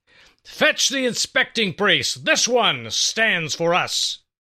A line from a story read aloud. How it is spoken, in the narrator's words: In that booming voice of his, Issachar demanded, and loudly